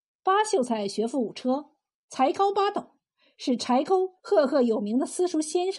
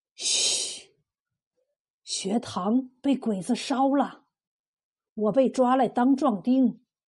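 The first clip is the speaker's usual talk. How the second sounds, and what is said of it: Quiet, hushed voice. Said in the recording (Chinese): “小声的说”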